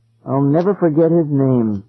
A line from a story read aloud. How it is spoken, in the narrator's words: Eloise said sadly